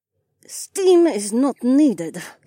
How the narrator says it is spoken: Adhara said through gritted teeth

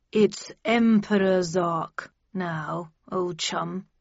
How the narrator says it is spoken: he said through gritted teeth

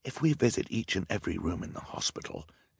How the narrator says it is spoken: Klaus whispered to his sister

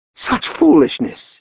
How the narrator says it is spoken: Eugen cried

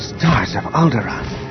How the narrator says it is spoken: he breathed

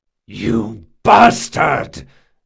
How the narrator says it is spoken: Jean roared

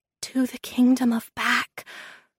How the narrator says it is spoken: I whispered

